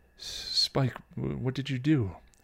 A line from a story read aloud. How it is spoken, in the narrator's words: Tara asked, bluntly but gently